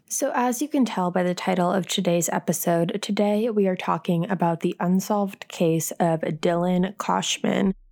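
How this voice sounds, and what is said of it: Slightly raspy, under-the-weather voice. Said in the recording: “I am feeling a little bit under the weather... my voice is either a little bit raspier or sounds a little bit different”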